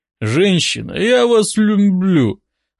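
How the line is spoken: Sudden mumble, injured man. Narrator (Russian): внезапно промямлил горе-любовник с разбитой головой

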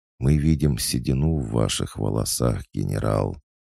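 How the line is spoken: Sudden creaky voice. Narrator (Russian): внезапно проскрипела Дубрава

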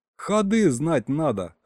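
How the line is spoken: Laughing. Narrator (Russian): хохотнул Саня

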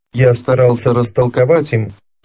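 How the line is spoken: Calmer tone. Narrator (Russian): продолжал Арман более спокойным тоном

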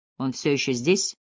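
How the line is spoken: Quiet question. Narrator (Russian): тихо спросила Кэти

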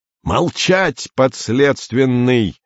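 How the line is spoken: Yelling. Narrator (Russian): заорал Андрей

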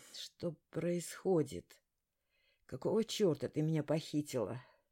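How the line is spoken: Hoarse croak. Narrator (Russian): прохрипела я

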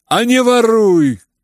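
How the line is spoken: Furious choking shout. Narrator (Russian): крикнул Ганя, чуть не захлебываясь от злости

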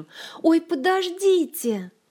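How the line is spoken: Shout. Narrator (Russian): закричала Ольга

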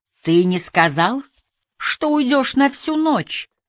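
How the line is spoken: Shrill shout, choking with tears. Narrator (Russian): крикнул один из них тонким голосом, задыхаясь от слез

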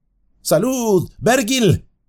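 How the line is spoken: Shouted. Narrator (Spanish): le gritó

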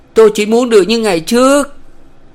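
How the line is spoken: Crying out. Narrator (Vietnamese): kêu lên

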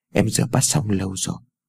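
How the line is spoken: Gentle speech. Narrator (Vietnamese): Ái Dương vẻ dịu dàng nói

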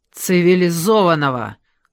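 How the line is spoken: Angry snap. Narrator (Russian): зло огрызнулась я

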